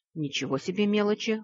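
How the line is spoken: Snorting. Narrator (Russian): хмыкнул лорд Винотор

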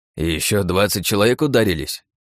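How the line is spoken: Healer grumbling. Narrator (Russian): проворчал целитель

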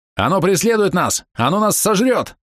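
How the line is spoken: Panicked yelling. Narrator (Russian): орал он

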